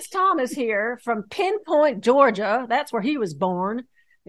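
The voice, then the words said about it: Put-on Southern accent. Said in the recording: “Stop trying to be Southern. You are not Southern.”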